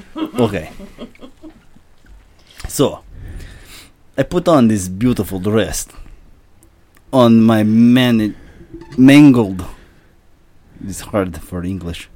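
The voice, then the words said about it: Put-on Russian accent. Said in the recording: “Russian, take it away ... Nuclear physicist Viktor Volkanikov ... by a Russian man. Take it away, Viktor.”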